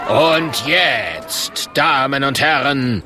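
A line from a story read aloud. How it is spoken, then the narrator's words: Called out. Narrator (German): ruft der Murk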